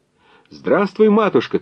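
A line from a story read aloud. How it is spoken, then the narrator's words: Young man shouting. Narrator (Russian): крикнул юнош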